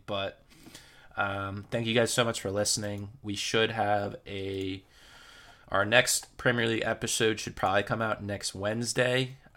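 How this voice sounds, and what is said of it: Raspy, strained voice. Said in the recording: “my voice gets more and more raspier from just rambling”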